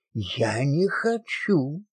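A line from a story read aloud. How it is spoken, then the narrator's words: Quiet angry anxious whisper. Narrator (Russian): тихо на ухо ответила Авдотья Морозова сердитым и встревоженным голосом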